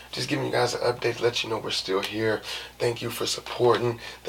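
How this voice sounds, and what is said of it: Strained, fading voice. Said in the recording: “It's hard for me to talk. I keep cutting up the side of my mouth. My voice is going.”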